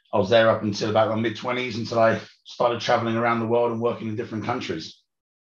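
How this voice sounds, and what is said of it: British accent with Australian/South African twang. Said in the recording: “there's a British accent going on ... I've got a bit of a Australian and South African twang in there”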